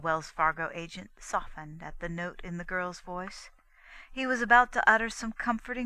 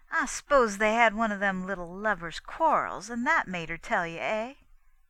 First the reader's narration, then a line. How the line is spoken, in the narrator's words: She laughed a forced little laugh, though her heart was speeding strangely as she kept on